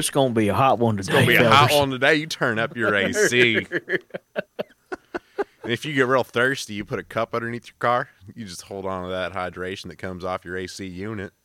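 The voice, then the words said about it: Put-on Southern twang. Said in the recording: “Or that southern twang ... The inflection there was perfect ... I can do a South twangy voice”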